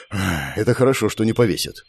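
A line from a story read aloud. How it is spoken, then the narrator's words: Exhaled words. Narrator (Russian): выдохнул я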